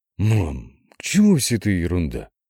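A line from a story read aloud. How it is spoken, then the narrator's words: Sigh. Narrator (Russian): Татьяна вздохнула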